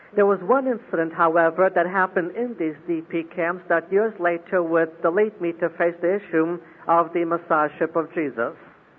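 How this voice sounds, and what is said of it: Mixed foreign accent with German traces. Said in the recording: “5 years in West Germany should explain a third segment of the accent you've been listening to”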